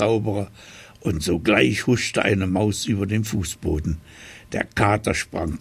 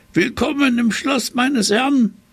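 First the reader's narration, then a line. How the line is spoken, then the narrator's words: Cat calling out. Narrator (German): rief der Kater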